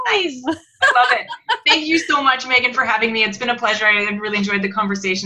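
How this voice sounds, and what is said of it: Canadian accent. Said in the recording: “I've really enjoyed listening to your accent because it's been a long time since I've been around Canadians.”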